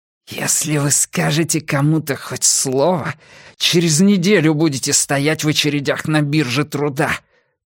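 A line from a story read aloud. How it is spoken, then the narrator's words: Hiss. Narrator (Russian): прошипел он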